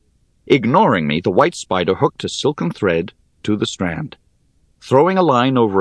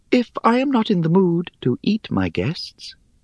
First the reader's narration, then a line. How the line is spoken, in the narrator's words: she continued in her airy little voice